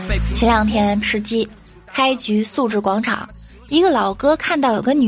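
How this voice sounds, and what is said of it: Usual voice. Nothing is said of it.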